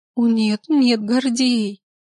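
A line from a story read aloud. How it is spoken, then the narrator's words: Sobbing doctor. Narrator (Russian): Всхлипывая, врач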